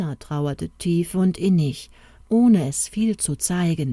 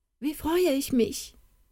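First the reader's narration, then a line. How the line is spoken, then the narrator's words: Calling out. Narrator (German): rief sie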